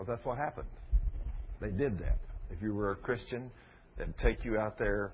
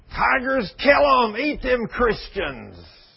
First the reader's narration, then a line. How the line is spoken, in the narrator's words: hollering and screaming and saying